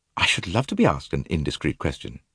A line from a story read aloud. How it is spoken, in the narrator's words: Allerton murmured with a faint smile